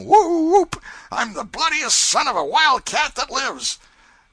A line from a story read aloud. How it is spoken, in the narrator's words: let off a roaring